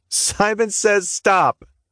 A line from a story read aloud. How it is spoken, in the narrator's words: June said through a fit of laughter